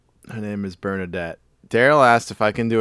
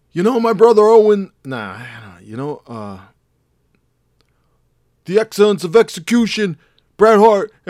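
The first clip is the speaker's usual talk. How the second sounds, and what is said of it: Bret Hart impression, dumb Canadian jock. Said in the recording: “do an impression of Bret Hart winning an Oscar for Lonesome Dove... He's kind of like a dumb jock, but Canadian”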